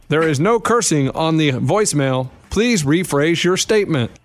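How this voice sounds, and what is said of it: Robotic automated voicemail voice. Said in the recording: “Why did you get a robot voice? Because you weren't robot, and all of a sudden you go to robot.”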